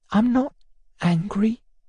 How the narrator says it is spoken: she said timidly

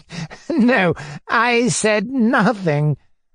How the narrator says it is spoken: he said, as though hardly able to suppress his laughter

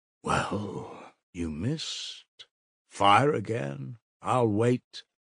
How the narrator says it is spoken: said Svidrigailov softly, still smiling, but gloomily

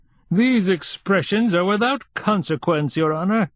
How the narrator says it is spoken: said the starosta, pompously

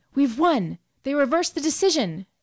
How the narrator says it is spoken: cried Gloria tensely

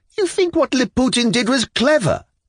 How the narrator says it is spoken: Yulia Mikhailovna cried in intense indignation

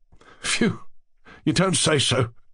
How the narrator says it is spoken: the dark-haired man whistled and laughed

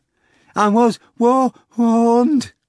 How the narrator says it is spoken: replied, gasping

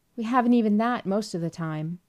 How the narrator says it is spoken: cried Gloria

